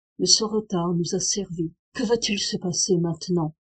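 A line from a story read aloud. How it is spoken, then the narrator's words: Low voice. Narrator (French): dis-je à voix basse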